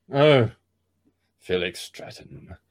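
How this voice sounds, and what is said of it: Felix Stratton character voice. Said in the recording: “you have to give an impersonation.”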